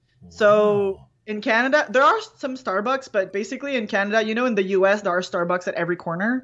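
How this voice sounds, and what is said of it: French Canadian accent. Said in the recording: “what's my accent? I'm French Canadian. I have a weird accent.”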